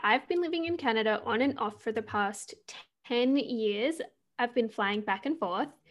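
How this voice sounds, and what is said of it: Australian accent. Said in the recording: “the accent stumps some people sometimes ... I'm Australian”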